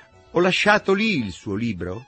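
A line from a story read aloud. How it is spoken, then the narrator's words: Shouting. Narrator (Italian): gridai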